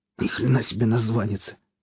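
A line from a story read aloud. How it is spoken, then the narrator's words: Hoarse curse. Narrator (Russian): хрипло выругался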